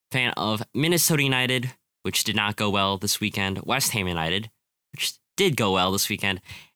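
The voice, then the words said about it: Slightly nasal, under-the-weather voice. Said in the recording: “I am feeling a little under the weather. So I apologize if my voice sounds a little nasally.”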